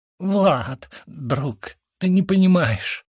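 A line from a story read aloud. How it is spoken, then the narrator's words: Groan. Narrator (Russian): застонал брат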